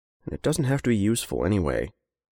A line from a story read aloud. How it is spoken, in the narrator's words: Henry muttered to the paper bag